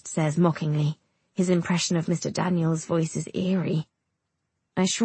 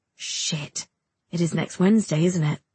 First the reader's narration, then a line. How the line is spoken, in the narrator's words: East mutters